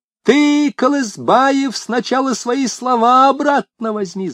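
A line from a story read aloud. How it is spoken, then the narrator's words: Shrill shout. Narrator (Russian): закричала она пронзительным голосом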